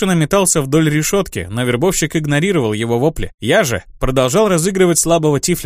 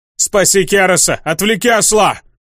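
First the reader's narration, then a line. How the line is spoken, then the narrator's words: Yelled at full voice. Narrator (Russian): заорал во все горло Саргатаносу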